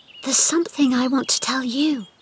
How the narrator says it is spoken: whispered Mary

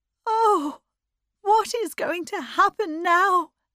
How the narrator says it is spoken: She cried

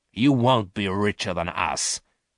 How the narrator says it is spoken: said Garth in a harsh voice

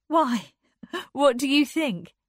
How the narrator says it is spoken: she laughed

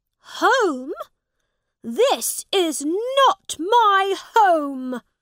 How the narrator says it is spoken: cried out

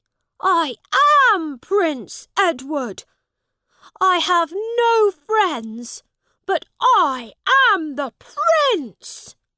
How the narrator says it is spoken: shouted

